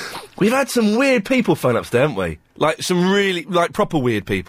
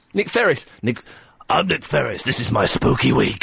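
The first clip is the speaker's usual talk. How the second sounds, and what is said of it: Imitates another person's voice. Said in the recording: “good impression”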